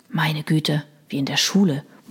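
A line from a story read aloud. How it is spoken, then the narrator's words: Murmuring. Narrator (German): murmelte Chris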